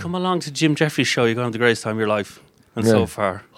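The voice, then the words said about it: Bouncy Irish accent. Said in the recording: “Irish ... I love this accent ... he sounds like he's on his toes ... hopping while he's”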